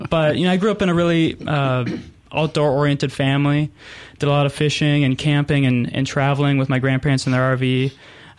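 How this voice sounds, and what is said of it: Minnesota accent. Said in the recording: “I'm originally from Minnesota, so I'll apologize for my accent”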